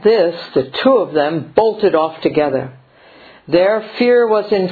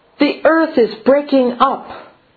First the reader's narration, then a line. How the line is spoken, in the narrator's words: the first hare cried